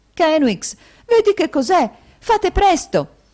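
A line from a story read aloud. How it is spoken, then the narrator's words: Exclaimed. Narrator (Italian): esclamò la sorella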